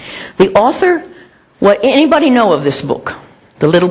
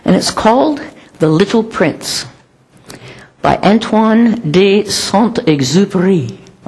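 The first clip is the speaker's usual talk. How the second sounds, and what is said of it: Attempted French accent on name. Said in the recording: “I don't know if that's the way they pronounce it, but try to give my best French accent.”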